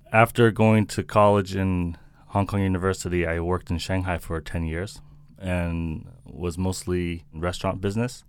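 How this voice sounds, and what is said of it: American accent. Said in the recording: “You've got this American accent. I'm assuming that you're American.”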